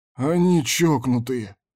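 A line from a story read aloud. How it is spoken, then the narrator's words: Groaning. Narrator (Russian): простонал Кондор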